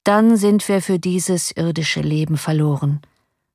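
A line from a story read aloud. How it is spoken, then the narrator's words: Calm. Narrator (German): sprach ruhig der Ex-Großpensionär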